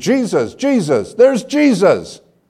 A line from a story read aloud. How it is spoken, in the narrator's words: Not just saying the words, but exclaiming them with every fiber of her being